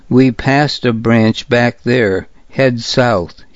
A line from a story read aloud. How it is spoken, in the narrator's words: he said